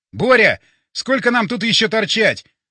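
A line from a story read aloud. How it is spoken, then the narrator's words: Shouted. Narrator (Russian): крикнул я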